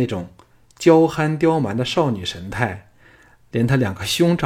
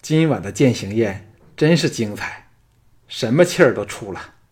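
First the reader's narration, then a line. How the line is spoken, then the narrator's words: Breathless, strained. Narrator (Chinese): 安谷希喘着气，辛苦地说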